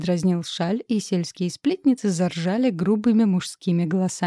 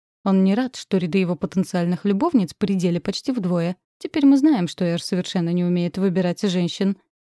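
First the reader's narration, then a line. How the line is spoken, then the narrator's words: Amused snort. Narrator (Russian): хмыкнул Хашаль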